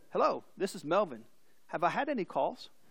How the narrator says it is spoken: The father calmly said

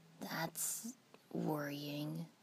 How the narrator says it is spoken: Sasuke said grimly

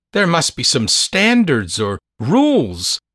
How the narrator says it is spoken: Minty gasped

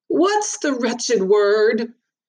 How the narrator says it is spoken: announced loudly, then muttered

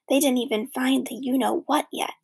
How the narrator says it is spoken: Stink whispered

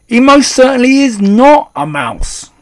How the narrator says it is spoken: shouted Mr

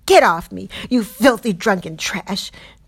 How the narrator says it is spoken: screaming

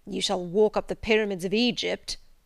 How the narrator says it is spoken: he growled

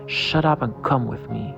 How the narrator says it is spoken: he said in a cold, menacing voice

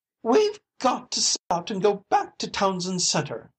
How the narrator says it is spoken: cried his wife in a wild voice

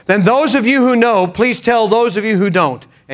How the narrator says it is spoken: Thinking quickly, he said

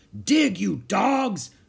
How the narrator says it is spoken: cried Captain Bones

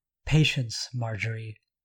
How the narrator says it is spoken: Amelia murmured as she read

